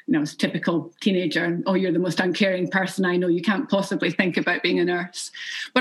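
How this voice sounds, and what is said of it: Scottish accent, Edinburgh-ish. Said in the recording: “no one could understand my Northeast accent. I probably have this more Edinburgh-ish accent”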